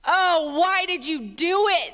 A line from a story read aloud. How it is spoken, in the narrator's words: They groaned